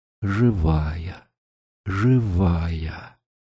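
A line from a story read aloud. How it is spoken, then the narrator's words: Quiet speech. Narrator (Russian): христианин тихо промолвил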